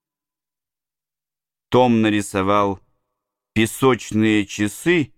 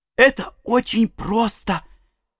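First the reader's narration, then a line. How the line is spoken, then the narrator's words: Whisper. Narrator (Russian): прошептал Том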